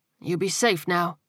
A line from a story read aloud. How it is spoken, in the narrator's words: he said quietly